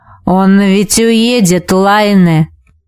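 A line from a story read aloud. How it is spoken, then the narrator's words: Hoarse wheeze. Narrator (Russian): прохрипел Витус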